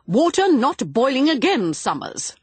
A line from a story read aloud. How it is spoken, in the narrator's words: Miss Griffith said sharply